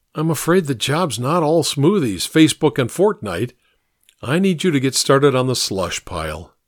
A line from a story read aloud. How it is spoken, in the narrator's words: I said with a sigh